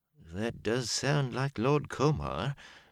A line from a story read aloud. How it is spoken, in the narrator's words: Gil said slowly